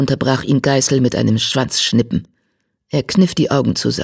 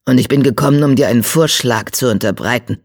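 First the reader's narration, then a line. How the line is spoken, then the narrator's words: Growled. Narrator (German): knurrte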